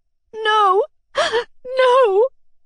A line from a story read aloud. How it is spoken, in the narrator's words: said, sobbing like a child